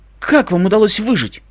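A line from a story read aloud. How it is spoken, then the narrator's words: Exclaiming. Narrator (Russian): воскликнул серп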